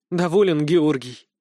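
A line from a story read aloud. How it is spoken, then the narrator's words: Trembling question. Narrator (Russian): дрожащим голосом спросила Юлия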